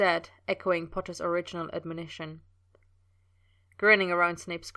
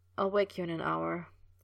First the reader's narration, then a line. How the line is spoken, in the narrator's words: he murmured, nearly asleep already